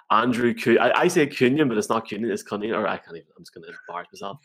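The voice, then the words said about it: Northern English accent. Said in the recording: “My Northern accent's going to get me here.”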